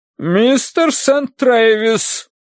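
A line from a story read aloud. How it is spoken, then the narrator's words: Thunderous metallic voice. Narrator (Russian): прогремела миссис Меринг вагнеровским металлом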